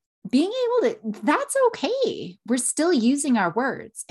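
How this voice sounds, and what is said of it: Usual voice. Nothing is said of it.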